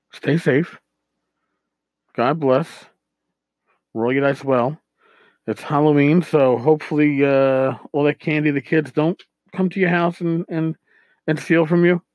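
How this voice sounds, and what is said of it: Slightly hoarse, worn-out voice. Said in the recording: “I'm losing my voice a little bit at the end.”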